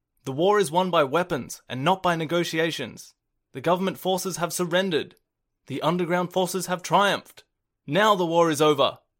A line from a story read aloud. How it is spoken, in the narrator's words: This voice exclaimed